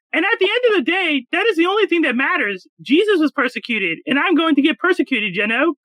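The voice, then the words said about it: Man putting on female voice. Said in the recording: “let me do a female voice.”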